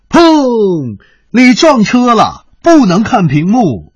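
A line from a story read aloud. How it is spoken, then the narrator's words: Loud roar. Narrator (Chinese): 郭新年大吼一声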